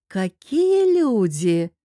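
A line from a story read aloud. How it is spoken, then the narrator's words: Drawled. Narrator (Russian): протянула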